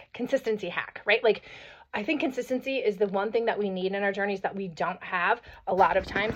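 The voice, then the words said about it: Hoarse, froggy voice. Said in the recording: “hoarse, froggy throat. It's probably because I was coaching basketball and watching basketball last night and at a track meet earlier today, so my voice is a little hoarse”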